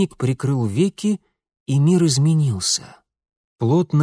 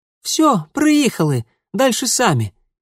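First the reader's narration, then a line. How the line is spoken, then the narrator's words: Squeaky. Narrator (Russian): пискнула Даринка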